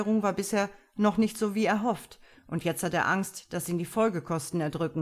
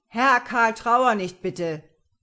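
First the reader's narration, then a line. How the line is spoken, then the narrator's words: Called out. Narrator (German): rief er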